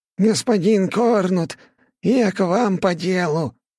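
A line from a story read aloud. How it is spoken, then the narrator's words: Hurried nasal voice. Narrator (Russian): Прогнусавил мажордом на опережение, видимо, боясь, что жертва успеет уйти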